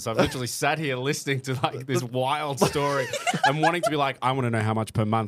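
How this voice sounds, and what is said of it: Noticeable foreign accent. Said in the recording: “Listen to that accent, y'all.”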